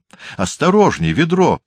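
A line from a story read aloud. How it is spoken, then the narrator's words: Cheerful shout. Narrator (Russian): весело крикнула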